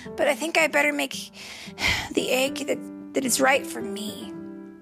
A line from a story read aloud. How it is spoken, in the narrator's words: sighed